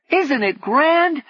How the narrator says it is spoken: shouted Galli over the racket

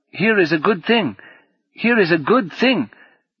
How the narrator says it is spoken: cried

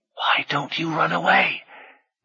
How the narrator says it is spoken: Rini whispered fiercely

